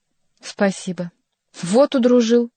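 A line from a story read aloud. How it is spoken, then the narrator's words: Exclaiming. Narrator (Russian): воскликнул Шико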